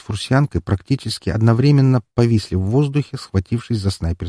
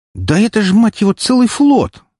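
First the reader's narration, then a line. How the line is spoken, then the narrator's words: Exasperated exclamation. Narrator (Russian): в сердцах воскликнула Валькирия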